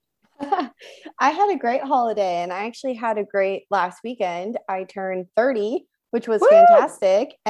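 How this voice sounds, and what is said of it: Hoarse, strained voice. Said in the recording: “my voice is a little bit shot from screaming on all of the rides”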